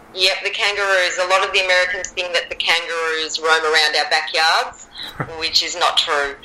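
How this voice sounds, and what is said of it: Australian accent. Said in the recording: “we've both got different accents. ... And I love the Australian accent.”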